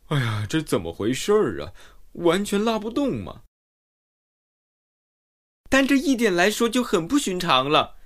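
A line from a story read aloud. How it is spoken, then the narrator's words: Panting, out of breath. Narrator (Chinese): 喘着粗气，说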